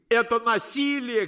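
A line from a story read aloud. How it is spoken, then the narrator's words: Shouting. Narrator (Russian): кричали зоки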